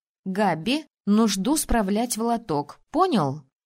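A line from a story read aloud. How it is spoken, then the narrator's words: Stern. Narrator (Russian): строго заявила я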